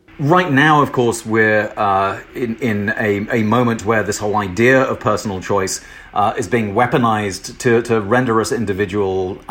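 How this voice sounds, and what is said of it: British accent. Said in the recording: “you may hear in my voice that I am not from, I was not born in the United States, and uh, from from Britain”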